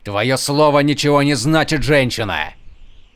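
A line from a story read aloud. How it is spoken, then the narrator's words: Warrior shouting. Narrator (Russian): крикнул воин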